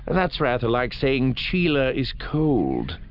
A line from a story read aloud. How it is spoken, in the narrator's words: Thras said dryly